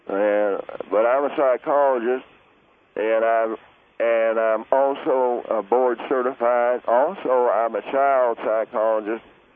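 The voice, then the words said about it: Southern US accent, North Carolina. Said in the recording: “I have a southern accent that says I come from North Carolina.”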